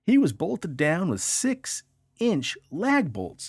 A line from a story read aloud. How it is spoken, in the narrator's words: exclaimed Jimmy's backyard barbecue owner Judy Blair